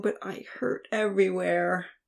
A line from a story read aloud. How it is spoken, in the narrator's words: she groaned